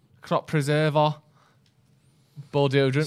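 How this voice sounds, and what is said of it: Exaggerated mank accent. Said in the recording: “in your most mank accent”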